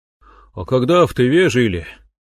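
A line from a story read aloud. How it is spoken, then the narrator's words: Sighing. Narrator (Russian): вздохнул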